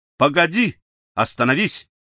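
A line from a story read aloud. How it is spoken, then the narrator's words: Shouting. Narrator (Russian): крикнул Хейвард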